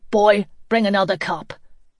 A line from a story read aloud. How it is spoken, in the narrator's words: Greg barked